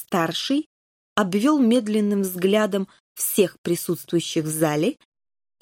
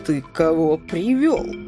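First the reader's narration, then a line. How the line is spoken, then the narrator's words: Angry question. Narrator (Russian): сердито спросил он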